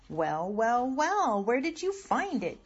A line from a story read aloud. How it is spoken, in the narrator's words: Grandma cried